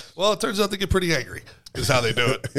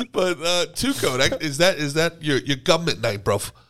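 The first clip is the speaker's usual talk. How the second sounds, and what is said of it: Put-on British Cockney accent. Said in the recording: “I love when Americans do a British accent... I thought it was pretty good... Little Cockney.”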